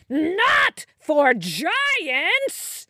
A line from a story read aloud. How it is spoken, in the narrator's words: he cackled loudly, and the ground trembled, and the treetops shook